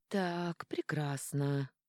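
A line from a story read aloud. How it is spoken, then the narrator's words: Muttered. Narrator (Russian): пробормотала Леона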